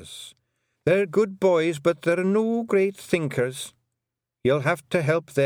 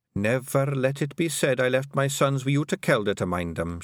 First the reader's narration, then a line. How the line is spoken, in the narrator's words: she muttered